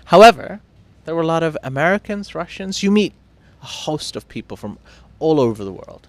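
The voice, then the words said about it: Posh, fancy British accent. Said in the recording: “a possibly pretentious fancy accent like mine ... I'm pretentious, therefore I have this accent.”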